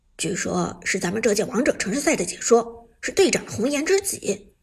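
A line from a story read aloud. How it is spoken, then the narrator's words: Quiet voice. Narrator (Chinese): 阿飞小声道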